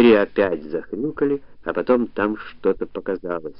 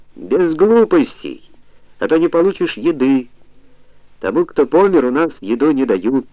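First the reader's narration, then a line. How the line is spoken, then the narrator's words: Shout. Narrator (Russian): тот же голос прокричал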